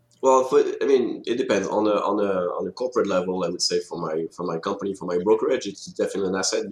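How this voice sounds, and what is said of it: French accent. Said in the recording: “you've got a French accent. Is it French-French or French-Canadian? ... French-French.”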